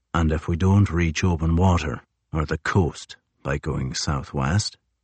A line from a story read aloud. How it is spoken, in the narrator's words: Crozier asked softly